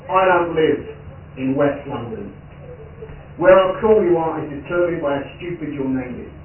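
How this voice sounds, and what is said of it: East London accent. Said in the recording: “Obviously, given accent, I'm from East London”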